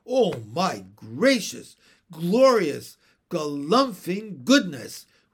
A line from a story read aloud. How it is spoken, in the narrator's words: roared Mr